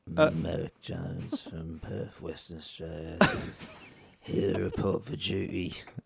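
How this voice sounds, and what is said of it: Weird put-on English accent. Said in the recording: “Some reason I got a weird English accent.”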